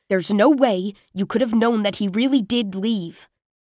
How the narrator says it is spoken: Derek said impatiently

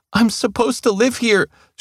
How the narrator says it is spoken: yelped

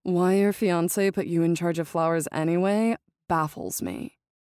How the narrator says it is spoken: Quinn says

